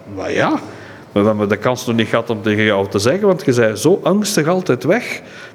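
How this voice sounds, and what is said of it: Antwerp Flemish accent. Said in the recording (Dutch): “in het Antwerpse accent”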